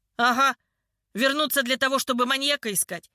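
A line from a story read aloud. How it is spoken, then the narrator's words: Angry laugh. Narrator (Russian): зло рассмеялся третий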